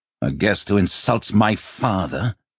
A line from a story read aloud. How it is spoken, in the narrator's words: Gwythyn snarled